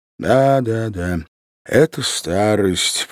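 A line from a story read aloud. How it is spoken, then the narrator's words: Silent inner repetition. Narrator (Russian): повторял он про себя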